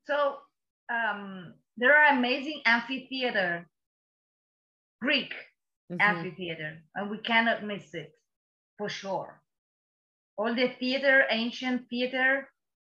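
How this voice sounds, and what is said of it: Foreign accent in English. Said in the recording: “after 15 years living overseas, I keep my accent. I love it. ... We all love your accent. Don't change it.”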